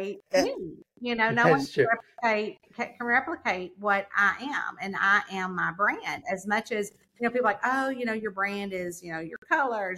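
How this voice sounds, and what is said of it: New York accent. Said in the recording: “No one can replicate this New York accent.”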